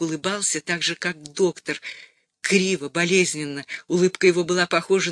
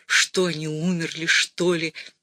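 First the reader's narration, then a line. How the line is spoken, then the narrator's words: Muttered. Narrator (Russian): Берг пробормотал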